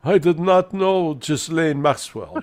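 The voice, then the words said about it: Melania Trump impression, European accent. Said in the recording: “she does it with a European accent.”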